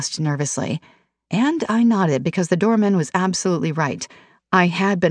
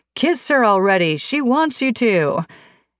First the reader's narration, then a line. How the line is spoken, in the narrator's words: the doorman yelled